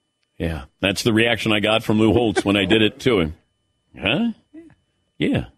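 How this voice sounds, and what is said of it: Usual voice. Nothing is said of it.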